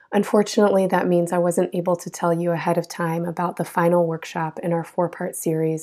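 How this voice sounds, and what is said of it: Hoarse, weakened sick voice. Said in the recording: “as you can probably hear, I got sick and lost my voice”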